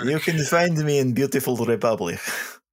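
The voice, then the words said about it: Put-on Slavic accent. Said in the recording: “that Slavic accent”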